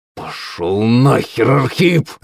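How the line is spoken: Angry hiss. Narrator (Russian): злобно зашипел на него Шувалов

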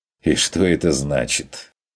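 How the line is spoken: Mocking. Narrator (Russian): уточнил охотник насмешливо

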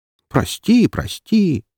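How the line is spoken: Grumbling, sorrowful sigh. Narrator (Russian): заворчала Распутина и горестно вздохнула

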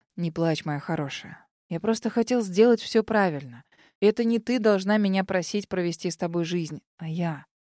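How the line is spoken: Quiet. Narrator (Russian): тихо произнес Норман

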